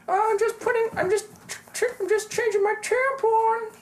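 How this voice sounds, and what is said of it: Imitates another person's voice. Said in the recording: “my Joe impression”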